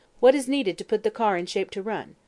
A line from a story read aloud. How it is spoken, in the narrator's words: the lawyer, more winded than Bub, demanded sharply